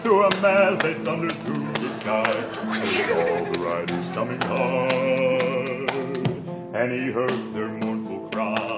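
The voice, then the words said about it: Low, deep singing voice. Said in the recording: “a low, deep voice”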